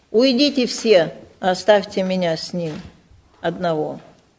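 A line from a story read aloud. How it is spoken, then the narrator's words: Very loud emotional shout. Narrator (Russian): не мог больше сдержать своих чувств, и он очень громко закричал египтянам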